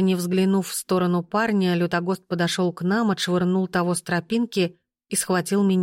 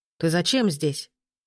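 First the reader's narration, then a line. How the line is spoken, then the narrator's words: Sharp question. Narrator (Russian): резко спросил Мстивой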